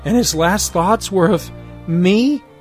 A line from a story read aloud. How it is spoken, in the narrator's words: wailing, says